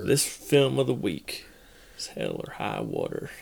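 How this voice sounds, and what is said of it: Put-on Texan accent. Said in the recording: “Let's hear it with a Texan accent.”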